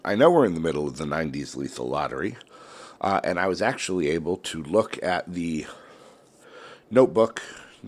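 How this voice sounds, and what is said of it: Congested voice from a cold. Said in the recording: “I'm still fighting a cold. I don't know if you can hear it in my voice. ... there's going to be some sniffing ... I can't breathe out of my nose.”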